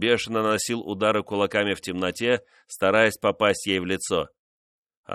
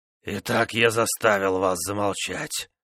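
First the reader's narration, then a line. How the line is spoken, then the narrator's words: Hoarse rasp. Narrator (Russian): наконец прохрипел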